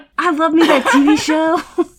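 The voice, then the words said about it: Put-on Southern accent. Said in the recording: “I gave myself a southern accent there.”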